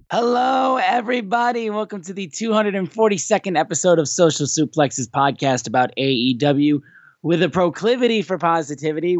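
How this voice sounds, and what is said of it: Hoarse, badly worn-out voice. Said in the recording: “with a completely shot voice. As you can tell, my voice is destroyed.”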